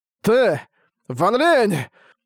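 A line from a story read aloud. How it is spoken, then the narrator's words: Breathless exclamation. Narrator (Russian): Выдохнул Лэй Ёнзы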